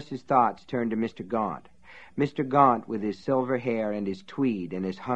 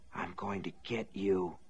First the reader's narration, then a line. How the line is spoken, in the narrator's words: Norris Ridgwick whispered